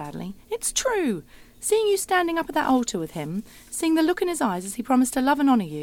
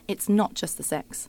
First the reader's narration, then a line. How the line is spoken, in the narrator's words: I say firmly